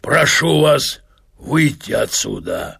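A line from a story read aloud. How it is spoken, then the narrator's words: Hoarse wheeze. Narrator (Russian): прохрипел он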